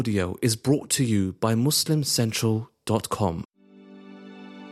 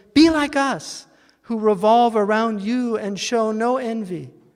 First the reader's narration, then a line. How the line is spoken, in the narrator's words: all the stars exclaimed